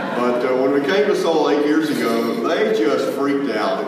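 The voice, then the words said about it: Southern American accent. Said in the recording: “when people ask me about my accent, they say, oh, you're from the South?”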